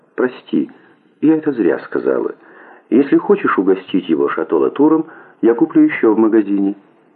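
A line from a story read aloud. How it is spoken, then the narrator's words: Soft. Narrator (Russian): Она мягко сказала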